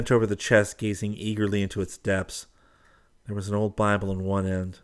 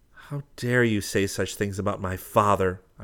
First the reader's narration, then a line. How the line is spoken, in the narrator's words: I cried in anger